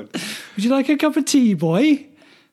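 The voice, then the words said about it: Put-on Welsh accent. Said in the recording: “Welsh ... Accent. ... I can't do it.”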